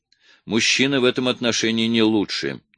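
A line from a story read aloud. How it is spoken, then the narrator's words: Soft objection. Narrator (Russian): мягко возразила Паула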